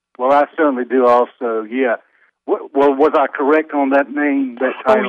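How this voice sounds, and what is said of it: Southern American accent. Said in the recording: “a non-Southern accent on my part ... I'm okay with a Southern accent.”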